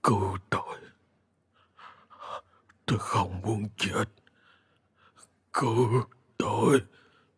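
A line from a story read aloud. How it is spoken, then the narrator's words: Dying man's weak mumble. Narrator (Vietnamese): ông đang thoi thóp, hơi thở yếu dần, trong miệng cứ lẩm bẩm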